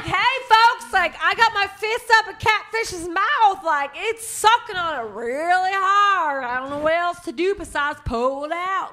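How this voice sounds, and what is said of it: Put-on Southern country accent. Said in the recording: “Where did you learn that accent? It's all sexy. ... That's 100% like country.”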